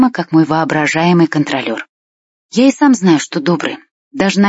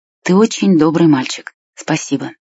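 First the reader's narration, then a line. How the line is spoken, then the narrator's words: Quiet. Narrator (Russian): Глаза клоуна засветились, и он тихо сказал мне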